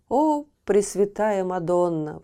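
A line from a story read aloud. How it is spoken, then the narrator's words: King exclaiming. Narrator (Russian): воскликнул король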